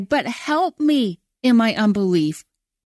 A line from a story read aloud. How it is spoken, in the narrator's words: cried